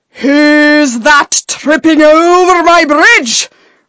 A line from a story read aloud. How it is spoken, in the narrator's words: roared the troll